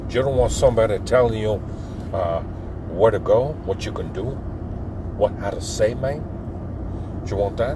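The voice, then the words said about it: Imitates a movie gangster voice. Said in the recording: “That was my Scarface impression.”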